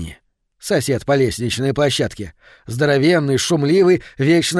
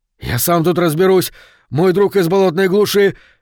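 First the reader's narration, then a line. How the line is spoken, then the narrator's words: Shouting. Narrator (Russian): крикнул Говард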